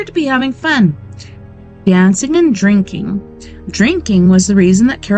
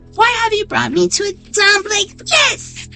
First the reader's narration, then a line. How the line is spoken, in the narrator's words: She screamed at Durston